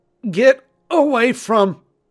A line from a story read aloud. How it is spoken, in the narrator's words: tried to say, but it was choking off my air supply